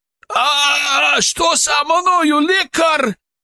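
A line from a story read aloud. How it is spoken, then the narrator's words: Wail. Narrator (Russian): завопил он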